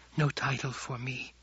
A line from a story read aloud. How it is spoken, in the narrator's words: Chani whispered